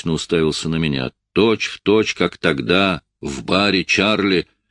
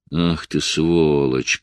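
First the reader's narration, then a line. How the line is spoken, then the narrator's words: Through gritted teeth. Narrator (Russian): процедил он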